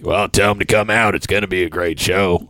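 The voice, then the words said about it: Imitates another person's voice. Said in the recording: “your impersonation is pretty spot on.”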